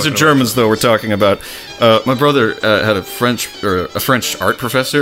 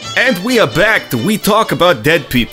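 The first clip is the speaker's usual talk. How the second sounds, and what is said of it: Bad put-on Russian accent. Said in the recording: “That's definitely the Russian one. ... That's my Russian accent. I have a Russian accent. It's terrible.”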